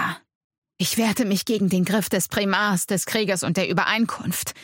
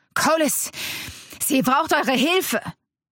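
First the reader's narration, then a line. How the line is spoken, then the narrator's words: Calling out. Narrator (German): rief er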